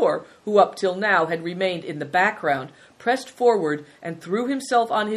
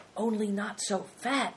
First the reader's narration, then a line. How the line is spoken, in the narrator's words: said Christian under his breath